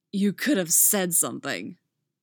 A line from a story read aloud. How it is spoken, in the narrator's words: he growls, a wave of relief flooding him